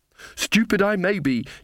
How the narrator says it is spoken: she panted

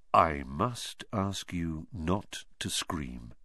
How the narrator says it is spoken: said Lockhart in a low voice

